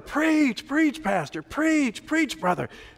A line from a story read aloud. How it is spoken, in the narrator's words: the congregation was yelling